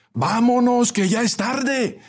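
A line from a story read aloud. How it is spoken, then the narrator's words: Shout from back seats. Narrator (Spanish): gritó alguien desde los últimos asientos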